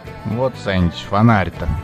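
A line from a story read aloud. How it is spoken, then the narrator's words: Sigh. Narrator (Russian): вздохнул я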